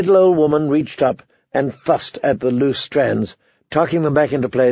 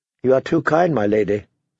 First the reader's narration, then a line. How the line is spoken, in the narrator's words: said Sansa